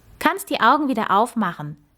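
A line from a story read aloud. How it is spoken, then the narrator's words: Calling down from above. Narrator (German): rief Max, als er oben angekommen war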